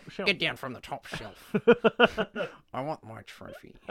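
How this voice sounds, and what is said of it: Imitates another person's voice. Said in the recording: “What was that voice? ... That's just my impression of Frankie Muniz holding a broom.”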